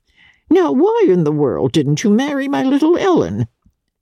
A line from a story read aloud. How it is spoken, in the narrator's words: Archer laughed